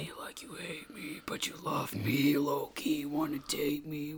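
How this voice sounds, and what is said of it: Imitates another person's voice. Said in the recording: “That was not Corpse, by the way. Corpse is not here. ... that impression was spot on.”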